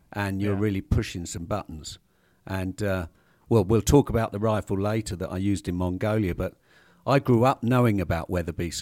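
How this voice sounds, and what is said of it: British accent. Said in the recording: “you have an accent ... Britain”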